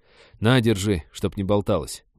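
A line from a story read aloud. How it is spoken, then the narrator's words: Gruff mutter. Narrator (Russian): буркнул лесник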